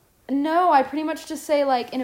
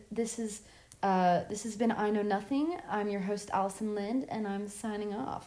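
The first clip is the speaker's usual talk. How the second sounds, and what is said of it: Very calm, soothing voice. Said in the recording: “in a very calming voice”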